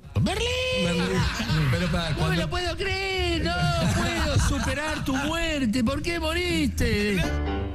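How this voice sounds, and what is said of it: Convincing put-on Argentine Spanish accent. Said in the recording (Catalan): “amb un accent argentí perfecte ... era Francesc Orella imitant... El Merlí Argentí.”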